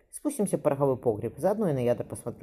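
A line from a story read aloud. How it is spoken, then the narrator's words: Plain. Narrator (Russian): сказал Степан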